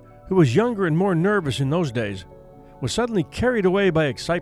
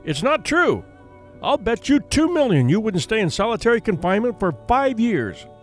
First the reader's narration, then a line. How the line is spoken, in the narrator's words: shouted at the young man